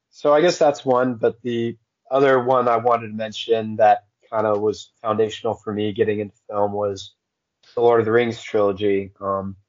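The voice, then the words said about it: Strained, failing voice. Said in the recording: “My voice is going to be giving out throughout this whole thing.”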